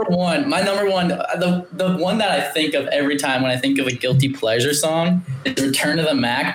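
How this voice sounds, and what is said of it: Usual voice. Nothing is said of it.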